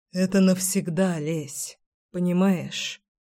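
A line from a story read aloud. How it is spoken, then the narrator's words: Breathy exhale. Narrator (Russian): Выдохнул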